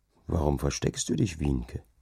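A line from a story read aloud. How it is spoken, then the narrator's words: Low whisper. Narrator (German): raunte der ihr zu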